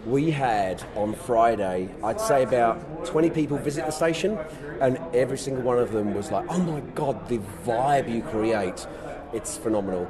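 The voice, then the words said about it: British accent turned partly Australian. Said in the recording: “I've been here 10 years from the UK, the accent probably is Aussie now”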